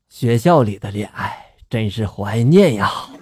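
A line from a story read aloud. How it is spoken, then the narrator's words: Murmuring to himself. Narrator (Chinese): 爸爸 喃喃自语的就说了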